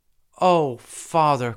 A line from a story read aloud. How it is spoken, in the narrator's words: cried Salambo